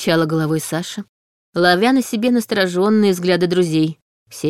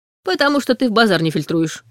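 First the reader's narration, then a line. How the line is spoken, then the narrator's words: Dry smirk. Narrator (Russian): хмыкнул Ваня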